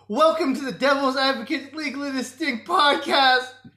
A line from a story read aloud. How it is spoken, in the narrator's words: Dave screamed as the secret vacation police stabbed his leg